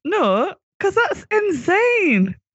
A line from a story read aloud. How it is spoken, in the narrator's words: shouted the doctor